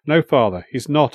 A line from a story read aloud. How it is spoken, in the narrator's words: I said calmly